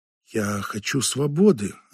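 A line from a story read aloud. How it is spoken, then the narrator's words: Quiet answer. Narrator (Russian): ответил он негромко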